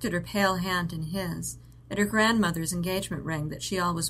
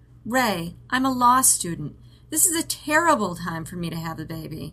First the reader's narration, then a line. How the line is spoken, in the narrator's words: she said, pleadingly, like he was arguing with her